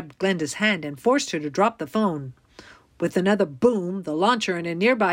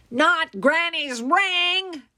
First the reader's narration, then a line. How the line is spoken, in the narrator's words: Glinda shrieked